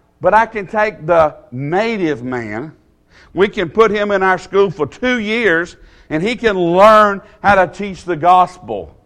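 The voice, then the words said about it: Southern US accent. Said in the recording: “this South Georgia boy here with this southern accent ... this southern accent”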